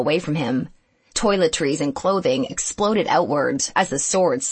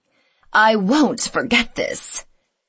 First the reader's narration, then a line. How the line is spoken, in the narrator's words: said Mira, speaking through gritted teeth